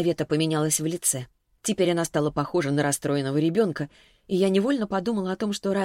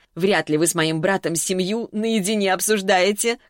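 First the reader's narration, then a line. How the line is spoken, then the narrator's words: Short laugh. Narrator (Russian): хохотнула она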